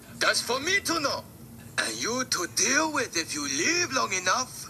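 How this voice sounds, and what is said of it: Mexican accent. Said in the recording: “Why do they sound like they have Mexican accents now?”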